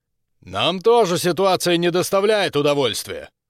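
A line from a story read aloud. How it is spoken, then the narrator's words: Shouted. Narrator (Russian): крикнул ей Хорва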